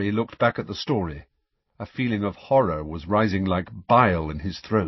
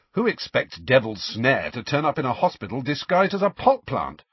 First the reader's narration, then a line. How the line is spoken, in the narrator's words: said Ron sharply